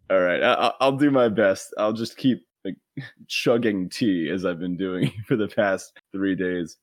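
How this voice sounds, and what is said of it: Gravelly voice from a cold. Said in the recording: “You might be able to hear my voice. I got a bit of a cold... my voice is just a little more gravelly now than it usually is”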